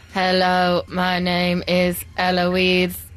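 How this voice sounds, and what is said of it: Robot voice. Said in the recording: “can you do a robot voice?”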